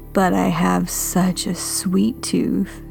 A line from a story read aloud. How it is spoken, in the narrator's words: laughed until she roared, filling the kitchen with noise until it sounded like a chainsaw in my ear